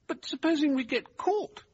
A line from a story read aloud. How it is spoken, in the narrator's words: Derbyshire asked anxiously